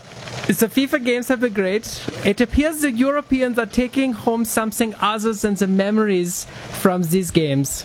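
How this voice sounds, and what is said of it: Put-on German accent. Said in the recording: “read the rest of this, in your German accent ... read it in the accent”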